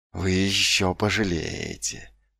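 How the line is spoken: Hiss. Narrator (Russian): прошипел

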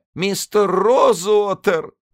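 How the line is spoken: Sobbing. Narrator (Russian): всхлипнула она

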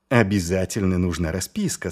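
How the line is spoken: Plain. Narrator (Russian): сказал он

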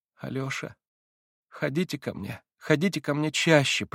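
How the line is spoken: Sudden pleading female voice. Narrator (Russian): проговорила она вдруг молящим голосом

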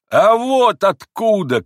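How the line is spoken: Shout. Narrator (Russian): крикнул он

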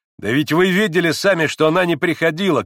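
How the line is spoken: Shouting. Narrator (Russian): кричал Иван

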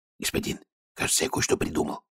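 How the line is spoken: Whispering guard. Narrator (Russian): прошептал один из стражников

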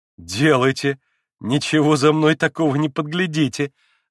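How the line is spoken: Laughing. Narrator (Russian): засмеялся Алеша

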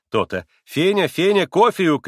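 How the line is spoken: Shout. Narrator (Russian): крикнула Грушенька

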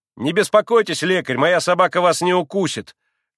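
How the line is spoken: Loud, curt. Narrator (Russian): Громко отрезал Коля

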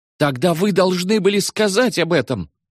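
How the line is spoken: Yelling. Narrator (Russian): завопил Берингер

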